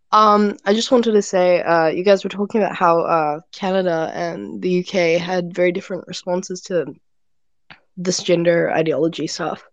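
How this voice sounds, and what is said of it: Unwell, affected voice. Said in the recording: “sorry about my voice. I have COVID at the moment.”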